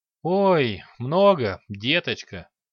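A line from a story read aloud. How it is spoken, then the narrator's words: Sighing. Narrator (Russian): вздохнула Койна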